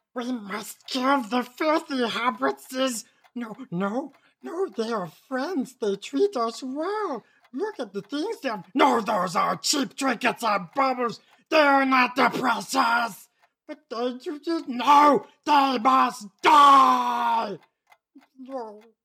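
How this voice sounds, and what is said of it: Gollum and Smeagol impression. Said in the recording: “your best impression of Gollum and Smeagol arguing”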